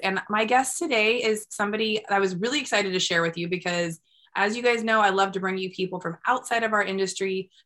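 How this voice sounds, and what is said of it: Raspy voice. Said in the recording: “I'm coming a little raspy this week for you. I am fighting a cold”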